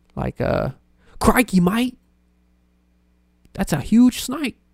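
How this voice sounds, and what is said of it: Bad put-on Australian accent. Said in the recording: “I can do certain words in Australian accent ... Sounds awful”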